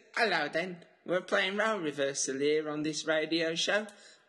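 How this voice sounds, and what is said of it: Put-on Mockney Southern English accent. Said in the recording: “You want me to do a Southern accent? ... I put on my little Mockney accent”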